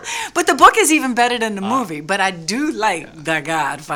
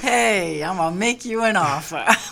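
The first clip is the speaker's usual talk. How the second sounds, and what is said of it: Very bad Godfather impersonation. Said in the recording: “That's my very bad Godfather impersonation.”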